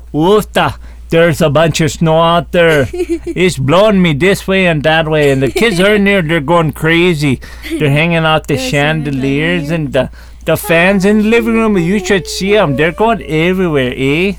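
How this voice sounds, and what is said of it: Put-on regional accent. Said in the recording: “my other accent”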